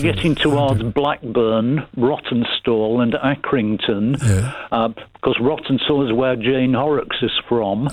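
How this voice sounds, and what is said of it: Northern English Burnley accent. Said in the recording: “I'm Burnley, so this is the Burnley accent that I'm doing”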